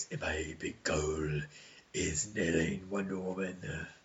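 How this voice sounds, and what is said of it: Imitated villain character voice. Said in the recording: “How can he do his voice? ... That had to be a really hard voice to do.”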